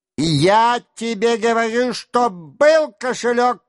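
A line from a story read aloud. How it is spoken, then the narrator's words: Shouting. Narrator (Russian): кричал Денисов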